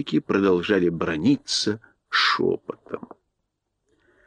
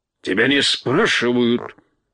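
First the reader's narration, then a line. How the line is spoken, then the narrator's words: Barked. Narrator (Russian): рявкнул Урфин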